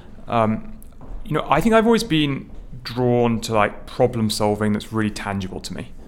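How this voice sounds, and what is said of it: British accent from near London. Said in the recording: “You can hear from my accent, I'm not from New York City. ... I grew up um, just outside London.”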